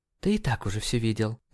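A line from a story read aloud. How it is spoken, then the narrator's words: Mumble. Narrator (Russian): пробормотала Мэри Джейн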